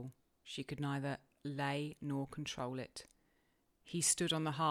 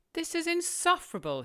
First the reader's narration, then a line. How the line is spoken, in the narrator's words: he exclaimed